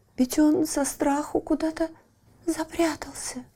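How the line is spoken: Timid, tearful. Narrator (Russian): робко проговорила заливавшаяся слезами Лючия

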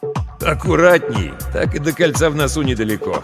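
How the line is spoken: Chuckling. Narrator (Russian): хохотнул Ермолов

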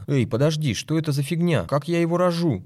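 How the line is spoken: Babbling. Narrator (Russian): залепетал Береста

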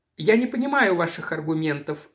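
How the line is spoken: Dry, unruffled objection. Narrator (Russian): сухо и невозмутимо возразил адвокат страховой компании

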